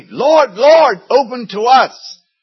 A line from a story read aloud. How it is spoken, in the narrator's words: they cried